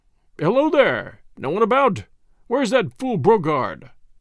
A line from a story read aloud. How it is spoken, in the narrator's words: he called in a loud, cheerful voice